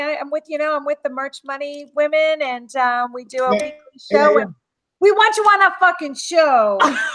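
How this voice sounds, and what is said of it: Put-on New Jersey accent. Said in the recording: “You used a Jersey accent”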